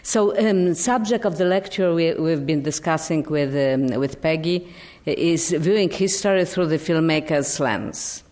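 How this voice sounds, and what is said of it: Non-native English accent. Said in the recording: “My accent is what it is, so please be tolerant.”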